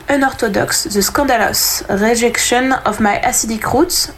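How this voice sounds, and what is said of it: French-accented English pronunciation. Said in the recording (French): “on juge pas mon accent anglais”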